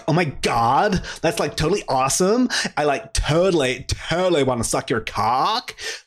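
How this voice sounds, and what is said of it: Put-on American accent, valley-girl style. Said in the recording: “try and do an American accent ... That sort of American accent”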